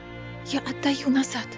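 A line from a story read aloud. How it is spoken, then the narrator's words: Whisper. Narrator (Russian): продолжала шептать Неста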